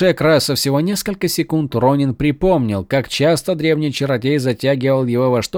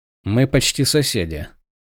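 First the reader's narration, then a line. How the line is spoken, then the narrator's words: Dry remark. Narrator (Russian): заметил он сухо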